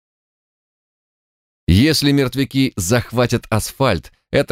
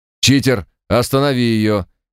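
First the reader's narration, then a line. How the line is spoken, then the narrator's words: Barked over radio. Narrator (Russian): рявкнула рация голосом Марта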